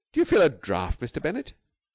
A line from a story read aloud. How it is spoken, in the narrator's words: cried Jane sharply